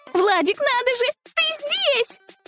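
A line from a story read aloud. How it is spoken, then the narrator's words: Joyful squeal. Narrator (Russian): Радостно завизжала она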